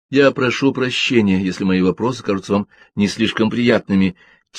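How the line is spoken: Quiet. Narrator (Russian): тихо сказала Джин

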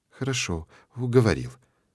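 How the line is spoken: Quiet. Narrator (Russian): произносит она тихо

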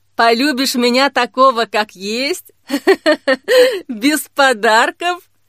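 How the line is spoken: Laughing loudly. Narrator (Russian): Захохотал тот

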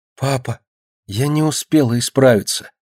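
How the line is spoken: Whispered in ear. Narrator (Russian): прошептала ему на ухо Динка

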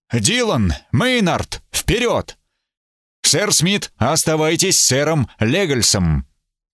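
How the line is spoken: Tense, stern command. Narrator (Russian): Эбергард сразу напрягся, велел строгим голосом

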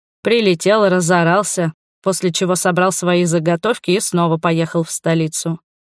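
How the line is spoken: Wry snort. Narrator (Russian): хмыкнул Хендрик

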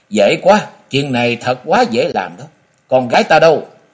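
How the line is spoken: Sly laughing. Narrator (Vietnamese): Ngọc Long bật cười gian nói

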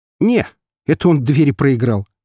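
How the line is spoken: Wry snort. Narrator (Russian): хмыкнул я

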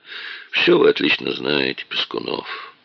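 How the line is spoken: Tired remark. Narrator (Russian): устало заметил Дронго

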